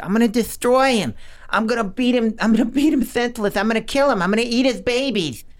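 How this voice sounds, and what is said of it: Imitates another person's voice. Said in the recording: “I did a pretty good Mike Tyson impersonation ... that's pretty good.”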